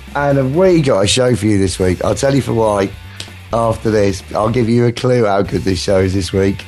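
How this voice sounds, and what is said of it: Hoarse, strained voice. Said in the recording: “I've lost my voice again”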